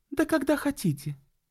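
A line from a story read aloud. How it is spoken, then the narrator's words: Cheerful. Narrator (Russian): весело сказала Энн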